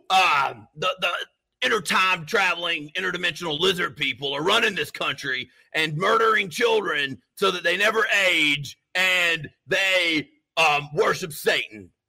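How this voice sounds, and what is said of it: Imitates another person's voice. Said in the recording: “That's my Alex Jones. ... That is a great Alex Jones. ... That sounds just like him.”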